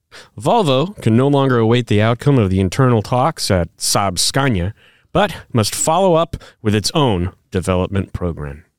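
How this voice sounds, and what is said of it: Put-on Swedish accent. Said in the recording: “That was my best Swedish accent. ... You sound like Skarsgård.”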